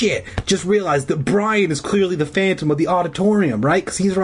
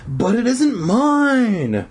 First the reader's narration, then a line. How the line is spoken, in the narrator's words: Zeke wailed